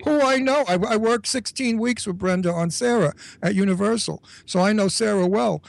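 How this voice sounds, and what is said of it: New York accent. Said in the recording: “they say I sound like Brenda Vaccaro ... Brenda and I sound alike in person. And we both have that New York accent”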